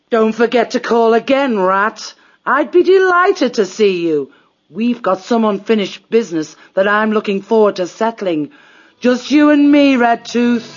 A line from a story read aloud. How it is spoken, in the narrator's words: The badger shouted mockingly